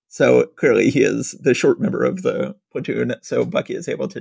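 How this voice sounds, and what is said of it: Usual voice. Nothing is said of it.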